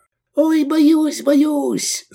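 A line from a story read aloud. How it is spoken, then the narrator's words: Squeaky disguised voice. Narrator (Russian): запищал он, меняя голос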